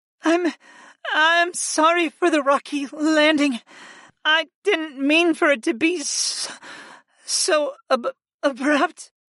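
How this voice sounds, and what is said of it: Shaky, stammering voice. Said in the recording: “she stammered in a shaky voice”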